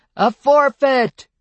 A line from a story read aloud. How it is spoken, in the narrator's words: the shout might have originated at the bar, but it was immediately taken up by a throng of voices